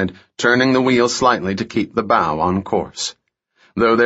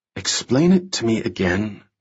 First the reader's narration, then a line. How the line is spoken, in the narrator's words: Remy whispered